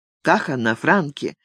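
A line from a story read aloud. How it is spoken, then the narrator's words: Quiet question. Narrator (Russian): тихо спросил Ник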